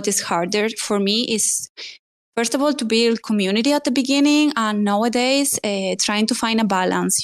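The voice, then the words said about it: Spanish accent in English. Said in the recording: “they love your accent ... every time I hear myself speaking, it's like, yeah, girl, there is zero doubts that like you are from Spain, like 100%”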